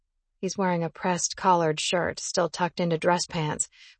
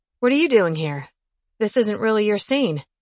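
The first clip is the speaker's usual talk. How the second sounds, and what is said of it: Drawling delivery. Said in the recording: “drawl”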